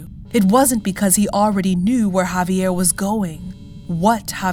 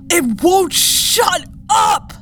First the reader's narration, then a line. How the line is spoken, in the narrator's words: Javier screamed back